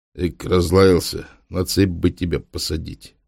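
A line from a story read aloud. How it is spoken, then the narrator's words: Grumbled. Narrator (Russian): буркнул Маркел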